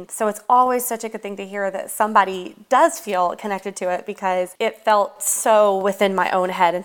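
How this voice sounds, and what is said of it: Slight rural hillbilly American accent. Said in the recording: “I love your accent, honestly. To me, it's so cute. ... I've worked very hard to prune the hillbilly and the backwoods out of my voice, but I know that it's still there, especially with certain words”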